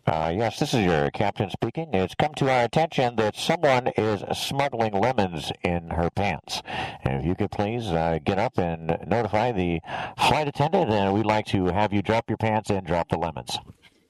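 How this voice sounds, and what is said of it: Airline captain announcement voice. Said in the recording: “do an impression of a captain of an airplane”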